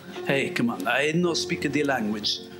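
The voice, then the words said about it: Put-on foreign stereotype accent. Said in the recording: “Now I'm doing foreign stereotype accents.”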